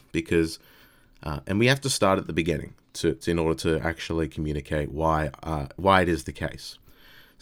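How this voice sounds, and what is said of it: Raspy, low-energy voice. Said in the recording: “I'm a little bit hungover too... I feel a little bit drained, a little bit worn out... apologies if I'm a little bit raspy or a little bit low energy”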